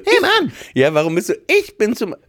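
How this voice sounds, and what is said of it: High-pitched put-on voice. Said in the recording (German): “so hoch mit der Stimme.”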